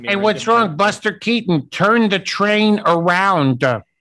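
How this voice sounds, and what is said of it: Imitates another person's voice. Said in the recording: “play Andy Kindler in front of Andy Kindler ... impersonated”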